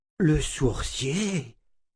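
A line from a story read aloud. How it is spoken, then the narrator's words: Exclaimed. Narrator (French): s'écria sœur Elisabeth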